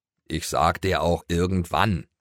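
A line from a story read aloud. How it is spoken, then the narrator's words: Grunting. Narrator (German): grunzte Schoko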